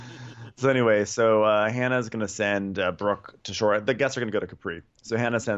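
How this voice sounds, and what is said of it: Usual voice. Nothing is said of it.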